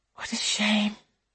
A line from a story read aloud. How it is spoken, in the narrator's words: she whispers